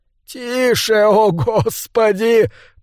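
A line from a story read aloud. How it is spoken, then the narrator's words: Groaning. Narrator (Russian): простонал Олин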